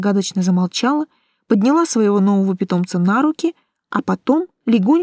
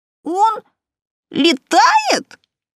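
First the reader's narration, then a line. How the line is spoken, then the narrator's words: Yelling little imp. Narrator (Russian): завопил чертенок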